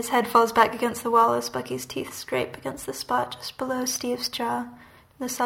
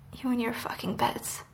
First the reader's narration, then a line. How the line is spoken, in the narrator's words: Bucky's breath is cool against skin where his mouth was when he mutters